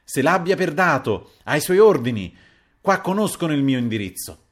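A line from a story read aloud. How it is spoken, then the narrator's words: Trembling angry shout. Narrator (Italian): Il marchese tutto fremente, e gridava contro l'aggressore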